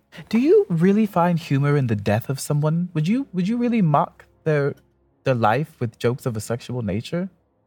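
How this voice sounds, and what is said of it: Put-on character voice. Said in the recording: “I'm doing a voice”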